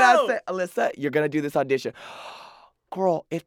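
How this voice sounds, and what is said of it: Usual voice. Nothing is said of it.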